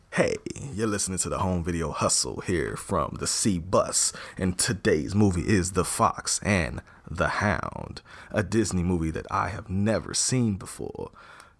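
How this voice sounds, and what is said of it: Smooth radio announcer voice. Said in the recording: “Come talk to you real smooth... Let me get my break the radio voice out”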